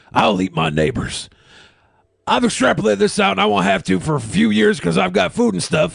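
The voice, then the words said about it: Imitates another person's voice. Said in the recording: “That's a pretty good Alex Jones impersonation.”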